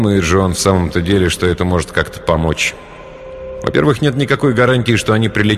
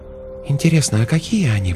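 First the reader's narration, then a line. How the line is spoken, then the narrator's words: Whisper. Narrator (Russian): прошептала Светлана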